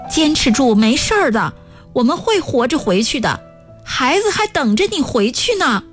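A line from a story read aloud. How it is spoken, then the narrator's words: Loud encouragement. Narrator (Chinese): 单儿松 大声说着鼓励的话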